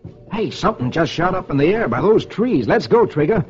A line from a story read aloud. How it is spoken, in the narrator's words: He exclaims